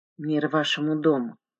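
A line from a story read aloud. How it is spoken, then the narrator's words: Mutter. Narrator (Russian): пробормотал я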